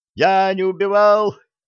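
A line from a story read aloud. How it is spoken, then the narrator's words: Thin cry from behind. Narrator (Russian): тонко крикнул кто-то за моей спиной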